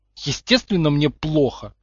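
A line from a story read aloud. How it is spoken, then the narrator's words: Irritated. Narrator (Russian): раздраженно откликнулся тот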